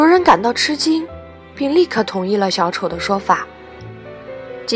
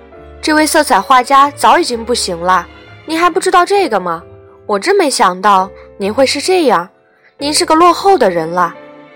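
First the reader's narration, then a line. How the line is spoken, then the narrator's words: Raised voice. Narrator (Chinese): 小丑提高声音说道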